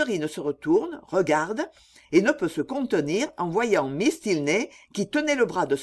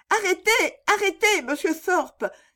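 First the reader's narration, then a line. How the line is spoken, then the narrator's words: Lively exclamation. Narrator (French): s'écria-t-elle avec vivacité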